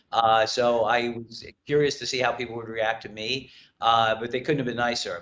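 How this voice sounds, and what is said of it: New York accent. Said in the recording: “I have a New York accent, I'm told”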